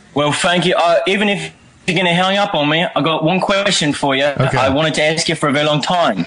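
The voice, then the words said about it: Put-on British accent. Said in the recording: “It's not bad. I think it's better than that last guy. ... Drop the accent.”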